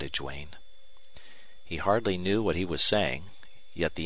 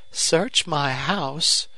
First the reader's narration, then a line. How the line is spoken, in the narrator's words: exclaimed Miss Longstreth